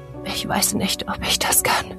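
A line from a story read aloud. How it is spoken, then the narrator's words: Cracked whisper. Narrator (German): flüsterte Else, ihre Stimme brüchig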